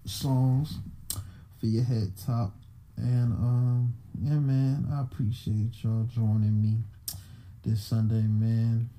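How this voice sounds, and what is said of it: Sick-sounding voice. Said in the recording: “Still under the weather. I don't know if you can tell from my voice.”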